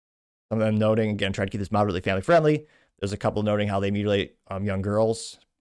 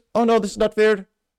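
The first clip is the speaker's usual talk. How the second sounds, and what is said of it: Put-on Indian accent. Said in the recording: “That's an Indian accent. I can't do some accents sometimes.”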